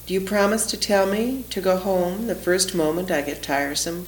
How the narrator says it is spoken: Florence asks

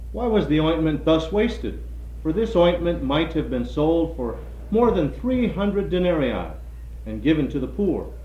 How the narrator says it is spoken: But there were some who said to themselves indignantly

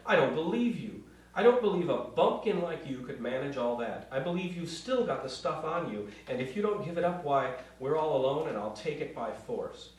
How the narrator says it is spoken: cried

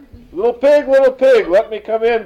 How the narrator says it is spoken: cried the wolf

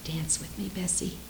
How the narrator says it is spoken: whispered Ninny

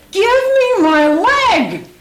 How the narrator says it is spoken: she screeched

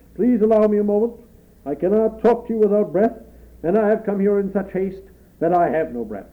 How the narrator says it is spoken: he boomed

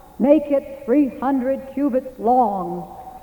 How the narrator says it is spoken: voice behind a closed door, booming like God's

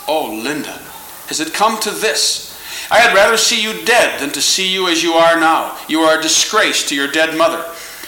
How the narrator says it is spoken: My grandmother exclaimed

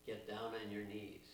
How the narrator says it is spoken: he said

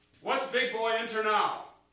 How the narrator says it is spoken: He asked sternly

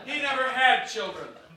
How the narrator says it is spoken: Mama yelled

